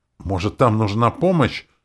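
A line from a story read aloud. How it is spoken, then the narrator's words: Ardent exclamation. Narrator (Russian): пылко воскликнул Ворт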